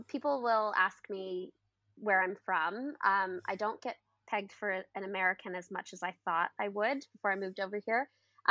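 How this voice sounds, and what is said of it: Canadian accent that sounds somewhat Irish. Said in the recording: “my accent that I can't hear myself, but surprisingly, it sounds more Irish than you would have thought”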